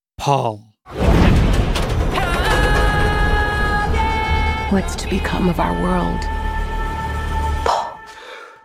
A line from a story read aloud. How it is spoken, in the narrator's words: her whispering